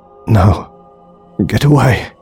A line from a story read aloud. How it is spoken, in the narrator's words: he croaked